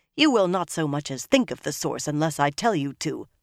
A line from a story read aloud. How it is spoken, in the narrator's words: Leandrin said sharply